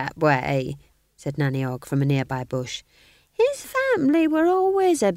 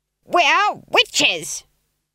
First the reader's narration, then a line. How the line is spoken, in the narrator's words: screamed Granny